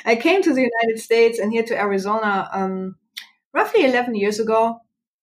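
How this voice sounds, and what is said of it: German accent. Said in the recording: “I'm sure you can pick up my accent. I'm from Germany originally.”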